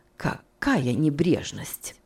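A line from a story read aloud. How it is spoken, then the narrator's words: Muttered. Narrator (Russian): пробормотала мисс Офелия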